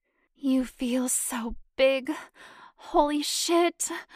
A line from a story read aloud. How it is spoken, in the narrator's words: Janet groaned